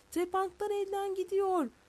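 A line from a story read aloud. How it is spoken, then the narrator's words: Young man shouting. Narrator (Turkish): Delikanlı bağırdı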